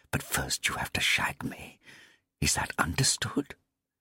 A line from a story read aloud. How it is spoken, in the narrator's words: she hissed